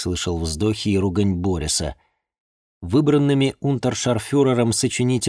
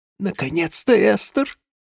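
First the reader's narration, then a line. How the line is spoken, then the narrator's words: Rustling childlike voice. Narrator (Russian): Борис шелестящим детским голосом сказал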